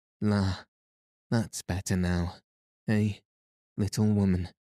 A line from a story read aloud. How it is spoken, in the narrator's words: he said, with a sigh of satisfaction